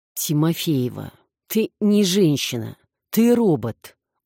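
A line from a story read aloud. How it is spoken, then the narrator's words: Weary dismissal. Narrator (Russian): Устало отмахнулся Гриня от очередной корректировки кадра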